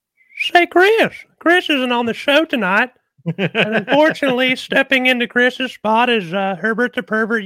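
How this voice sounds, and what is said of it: Whistly Herbert the Pervert voice. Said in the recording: “That was the longest impersonation I've ever heard. ... the whistle's tricky. ... you practice doing Herbert's voice”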